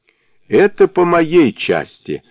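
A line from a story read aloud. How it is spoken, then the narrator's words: Laughing. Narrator (Russian): засмеялся Джубадзе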